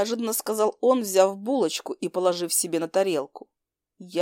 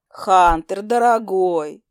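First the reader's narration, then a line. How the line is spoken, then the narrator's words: Slightly hoarse drawl. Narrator (Russian): с легкой хрипотой протянула она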